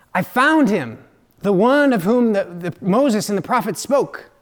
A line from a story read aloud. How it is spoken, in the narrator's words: Thomas had eagerly exclaimed to Nathanael